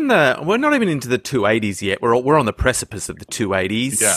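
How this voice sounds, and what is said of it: Usual voice. Nothing is said of it.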